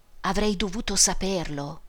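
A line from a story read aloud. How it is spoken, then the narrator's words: Murmured. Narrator (Italian): mormorò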